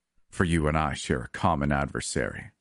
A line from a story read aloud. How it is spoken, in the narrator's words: he growled